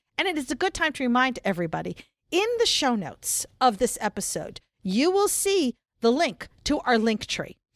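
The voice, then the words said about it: Announcer voice. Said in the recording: “use my announcer voice”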